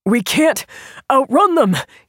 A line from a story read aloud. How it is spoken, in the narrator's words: he said between gasps